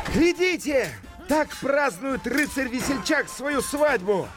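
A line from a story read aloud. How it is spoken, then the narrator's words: Loud shout. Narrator (Russian): громко крикнул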